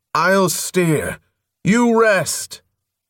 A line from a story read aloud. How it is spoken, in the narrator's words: He tipped his head back to shout